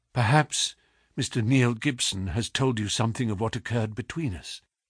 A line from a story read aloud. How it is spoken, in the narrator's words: asked in a low, agitated voice